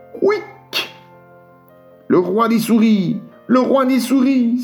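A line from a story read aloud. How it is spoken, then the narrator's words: Frightened exclamation. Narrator (French): s'écria-t-elle, tout effrayée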